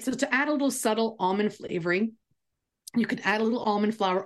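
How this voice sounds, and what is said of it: Hoarse, fading voice. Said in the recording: “I'm going to lose my voice again... All week, it's been going in and out... you sound like you're an AM radio”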